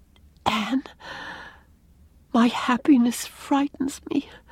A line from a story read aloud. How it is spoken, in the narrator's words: whispered Leslie